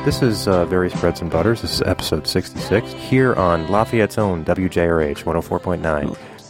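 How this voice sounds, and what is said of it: Put-on radio announcer voice. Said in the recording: “You're really trying the radio voice.”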